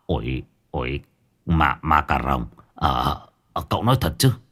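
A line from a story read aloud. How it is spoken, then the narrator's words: Stammering. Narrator (Vietnamese): Ông Nghị lắp bắp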